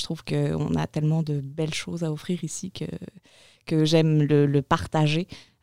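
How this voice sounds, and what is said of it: Slight accent from France. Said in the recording (French): “j'entends de quoi, dans, le fond de ton accent, qui me dit que tu n'es peut-être pas originaire d'ici ... je suis française au départ”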